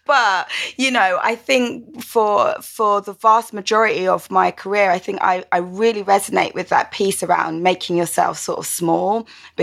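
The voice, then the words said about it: Croydon London accent. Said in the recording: “my very Croydon accent”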